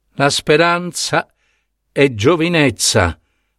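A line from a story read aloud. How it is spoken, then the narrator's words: Broken voice. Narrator (Italian): disse Ebe con voce spezzata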